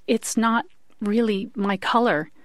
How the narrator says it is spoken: Lois managed to gasp

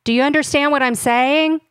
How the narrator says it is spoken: asked him, raising my voice just a little

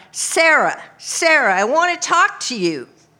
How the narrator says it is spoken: I called out

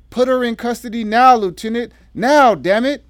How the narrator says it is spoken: the deputy district attorney screamed

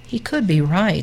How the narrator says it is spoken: they said

